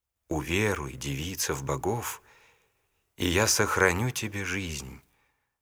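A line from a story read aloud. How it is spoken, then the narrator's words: Gentle ruler's voice. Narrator (Russian): правитель ласково сказал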